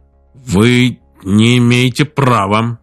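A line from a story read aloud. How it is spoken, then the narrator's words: Uncertain. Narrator (Russian): неуверенно сказал Джерри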